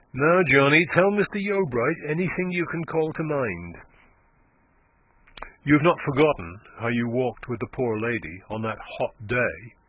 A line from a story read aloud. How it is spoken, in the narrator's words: said Klim